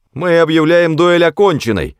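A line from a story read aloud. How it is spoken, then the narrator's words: Shouting in unison. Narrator (Russian): закричали они в один голос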